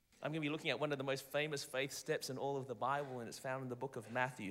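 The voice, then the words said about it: Australian accent. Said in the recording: “my cool Australian accent”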